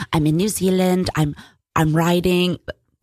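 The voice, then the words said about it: Put-on New Zealand accent. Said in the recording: “This is my New Zealand accent”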